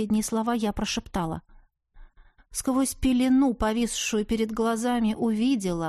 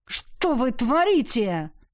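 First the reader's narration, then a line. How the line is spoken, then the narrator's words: Angry bark in ear. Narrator (Russian): Сердито рявкнули мне в ухо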